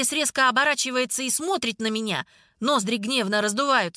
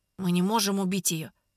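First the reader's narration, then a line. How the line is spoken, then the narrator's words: Quiet. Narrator (Russian): тихо говорю я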